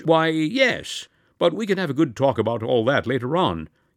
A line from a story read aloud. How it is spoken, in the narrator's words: he proceeded hastily